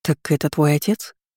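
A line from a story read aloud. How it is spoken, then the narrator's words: Low-voiced question. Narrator (Russian): вполголоса поинтересовалась я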